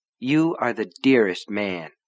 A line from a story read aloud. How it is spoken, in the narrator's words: said quietly